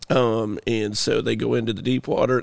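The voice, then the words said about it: Imitates another person's voice. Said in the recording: “my Bill Gaither impersonation ... it was spot on.”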